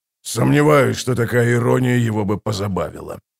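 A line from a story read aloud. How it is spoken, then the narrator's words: Muttered. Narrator (Russian): пробормотал воевода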